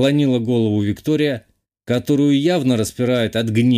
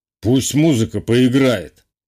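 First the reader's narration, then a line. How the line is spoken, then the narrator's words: Amused snort. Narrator (Russian): хмыкнул Самойлов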